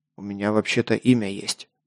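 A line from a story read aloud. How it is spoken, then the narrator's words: Mutter. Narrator (Russian): буркнул я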